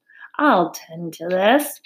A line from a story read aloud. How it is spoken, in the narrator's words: he chuckled